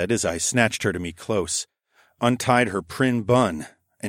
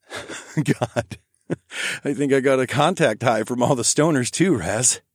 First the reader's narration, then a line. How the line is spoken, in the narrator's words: I said, through a suddenly elated giggle